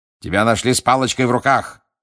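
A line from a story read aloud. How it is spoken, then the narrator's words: Barked. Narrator (Russian): рявкнул мистер Диггери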